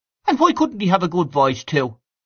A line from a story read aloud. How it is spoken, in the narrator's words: asked Freddy Mallins sharply